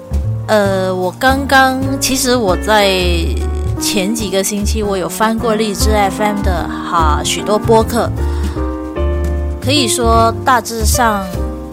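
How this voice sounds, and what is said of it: Non-native Mandarin accent. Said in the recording (Chinese): “相信大家都听得出我的口音并不像是一个中国人”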